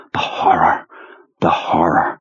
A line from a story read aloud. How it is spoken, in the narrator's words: in just the right Marlon Brando whisper